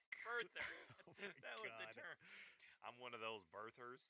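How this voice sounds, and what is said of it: Usual voice. Nothing is said of it.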